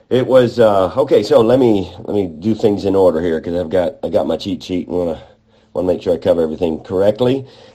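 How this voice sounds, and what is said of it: Congested voice. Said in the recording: “you can maybe tell by my voice that, well, I'm actually getting over a cold ... now it's into my voice and congestion”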